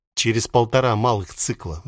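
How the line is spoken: Sigh. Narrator (Russian): вздохнул

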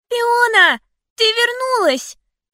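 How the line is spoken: Child's gentle shout. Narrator (Russian): крикнул ребенок нежным голоском

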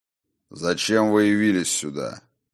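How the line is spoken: Stern, demanding, slightly condescending. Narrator (Russian): Это было разом и грозно, и взыскующе, но не без грана снисходительности

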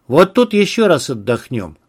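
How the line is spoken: Commanding tone. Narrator (Russian): командирским тоном изрек Ярослав

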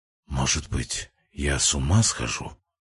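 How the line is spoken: Quieter, almost whisper. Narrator (Russian): сказал Воронин, уже тише, почти шепотом

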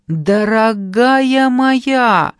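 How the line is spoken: Very loud shout. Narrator (Russian): снова закричала так, что я едва не поперхнулась кофе

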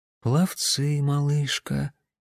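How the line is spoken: Quiet. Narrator (Russian): тихо напомнил Никола

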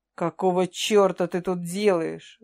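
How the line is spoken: Growled. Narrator (Russian): зарычал он

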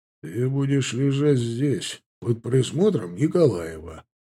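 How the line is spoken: Quiet but harsh. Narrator (Russian): тихо, но жестко ответил Ефремов

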